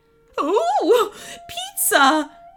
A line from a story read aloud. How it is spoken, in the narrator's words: squealed the goblin queen, suddenly forgetting about her outrage